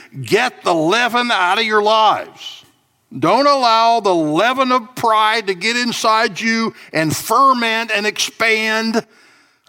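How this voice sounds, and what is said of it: Southern American accent. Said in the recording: “I'm talking with a southern accent, aren't I?”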